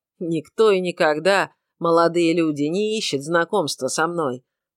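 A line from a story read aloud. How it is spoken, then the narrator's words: Grumbled. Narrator (Russian): проворчал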